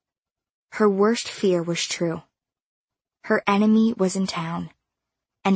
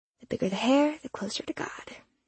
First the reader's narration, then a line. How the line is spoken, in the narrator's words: she muttered